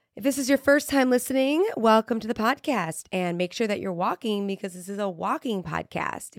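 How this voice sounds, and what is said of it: Slightly raspy voice. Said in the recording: “My voice is a little raspy because I am still sort of sick”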